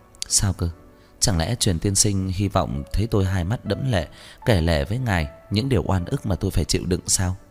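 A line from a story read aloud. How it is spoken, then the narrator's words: Teasing, soft laugh. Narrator (Vietnamese): tôi cười khẽ, trêu chọc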